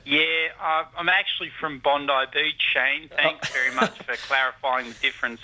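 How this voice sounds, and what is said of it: Australian accent. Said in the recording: “not another accent ... not from New Zealand ... down in Australia ... Bondi attitude and accent”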